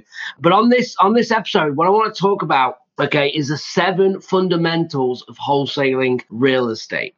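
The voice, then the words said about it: Strained, fading voice. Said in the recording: “my voice is going a little bit. I have been sick. I am feeling better, but you might hear it in my voice”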